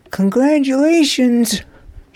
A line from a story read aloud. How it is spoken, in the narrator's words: called out